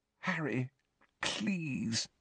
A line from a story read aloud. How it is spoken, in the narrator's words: Hermione pleaded weakly